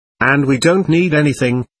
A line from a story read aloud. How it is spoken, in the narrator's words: cried Pyotr Ilyich, almost angrily